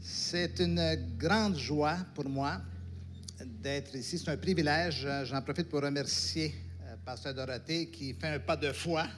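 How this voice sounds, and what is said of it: Light Québécois French accent. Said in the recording (French): “j'ai un accent, un léger accent particulier ... Quels sont ceux qui connaissent le Québec ici?”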